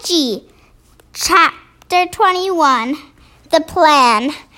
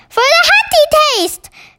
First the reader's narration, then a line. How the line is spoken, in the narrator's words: cried the BFG